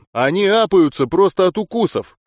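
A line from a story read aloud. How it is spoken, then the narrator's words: Shouted. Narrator (Russian): крикнул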